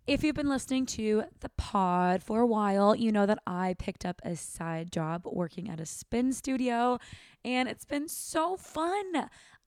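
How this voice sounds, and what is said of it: Strained, fading voice. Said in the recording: “losing my voice. ... I've been talking so much”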